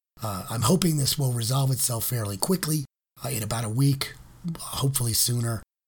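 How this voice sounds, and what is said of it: Hoarse, gravelly, nearly lost voice. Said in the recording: “obviously, I don't have a voice ... I could always take a job as a Tom Waits impersonator ... I hope to be talking to you in a normal voice really, really soon”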